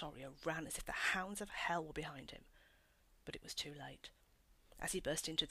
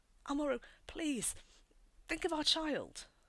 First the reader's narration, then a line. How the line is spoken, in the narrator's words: Leonora begged